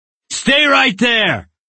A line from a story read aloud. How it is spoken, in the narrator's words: The man yelling